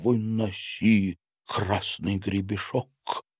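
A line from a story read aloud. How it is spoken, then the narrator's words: Whisper into ear. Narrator (Russian): шепнул Мартин петуху в ухо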